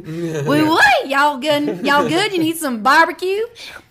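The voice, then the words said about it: Put-on Southern accent. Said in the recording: “I used to have that southern twang ... I use a southern voice”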